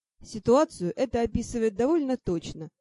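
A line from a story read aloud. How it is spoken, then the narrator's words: Snorting chuckle. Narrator (Russian): хмыкнул Ти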